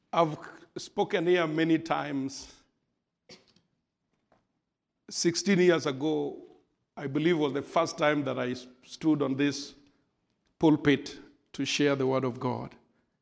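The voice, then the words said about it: African accent. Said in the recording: “I apologize for my African accent. It has just refused to go away.”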